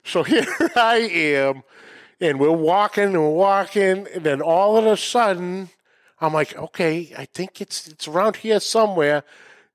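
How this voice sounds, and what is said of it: Northern American (Yankee) accent. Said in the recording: “who's the one with the Yankee accent?”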